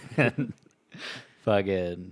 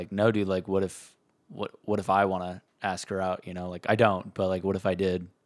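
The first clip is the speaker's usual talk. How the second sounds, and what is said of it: Monotone impression of Kendall. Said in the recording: “that's a great impression. ... Kendall. ... You just got to just monotone.”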